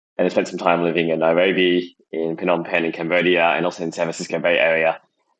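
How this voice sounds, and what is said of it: Australian accent. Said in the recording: “originally from Melbourne, Australia, as you can tell from the accent”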